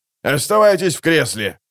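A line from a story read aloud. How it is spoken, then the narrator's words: Soldier barking from behind. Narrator (Russian): рявкнул пехотинец где-то за спиной Алекса и чуть ниже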